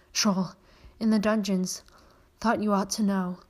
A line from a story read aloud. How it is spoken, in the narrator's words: slumped gasped